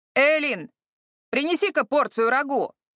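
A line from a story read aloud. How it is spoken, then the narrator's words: Shouted. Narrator (Russian): крикнул он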